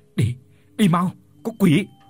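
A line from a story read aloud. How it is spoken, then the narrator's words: Stunned, then yelling. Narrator (Vietnamese): Đạt ngây người ra mất mấy giây rồi gào lên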